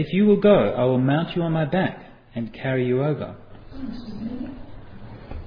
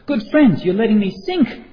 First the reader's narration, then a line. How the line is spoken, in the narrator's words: cried the monkey